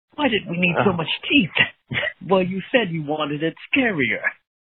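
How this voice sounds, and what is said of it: Non-American, Dracula-like character voice. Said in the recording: “good impersonation ... He sounds like he is not American ... I'm getting a little bit of a Dracula vibe”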